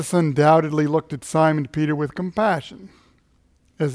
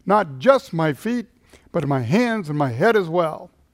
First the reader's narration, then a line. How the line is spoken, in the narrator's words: Simon Peter blurted out in his characteristic way